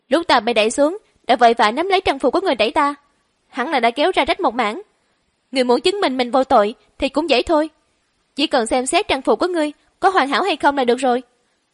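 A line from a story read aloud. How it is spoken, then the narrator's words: Calm, composed. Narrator (Vietnamese): Quý U lại không tức giận, trấn định nói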